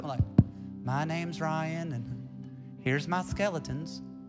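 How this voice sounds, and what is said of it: Put-on Southern accent. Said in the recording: “Why do I always have a southern accent when I do that?”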